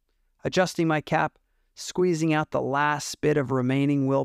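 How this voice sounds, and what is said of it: Usual voice. Nothing is said of it.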